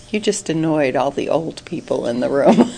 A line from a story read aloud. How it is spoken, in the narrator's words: Abraham said very dryly